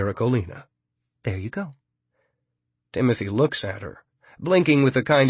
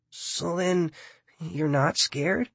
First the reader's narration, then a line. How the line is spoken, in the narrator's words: She sighs